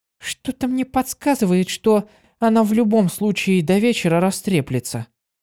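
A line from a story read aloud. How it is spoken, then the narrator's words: Soft whisper. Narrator (Russian): тихонько прошептала она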